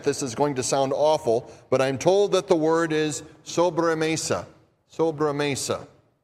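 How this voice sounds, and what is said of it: Minnesota accent. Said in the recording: “with my, uh, with my Minnesota accent.”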